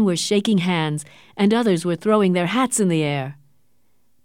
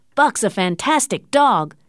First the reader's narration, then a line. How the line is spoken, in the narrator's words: shouted others